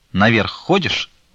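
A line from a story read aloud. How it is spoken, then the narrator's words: Sharp question. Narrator (Russian): резко спросила Фленушка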